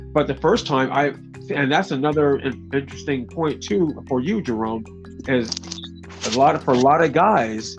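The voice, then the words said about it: Stuttering, halting speech. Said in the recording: “I'm stuttering for a reason”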